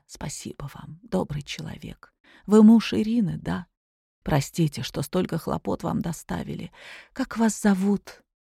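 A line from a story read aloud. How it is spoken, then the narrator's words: Weak quiet whisper. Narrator (Russian): пришла в себя, прошептала тихо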